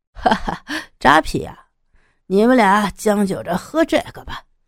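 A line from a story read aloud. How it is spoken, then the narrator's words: Laughing loudly. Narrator (Chinese): 男服务员大笑道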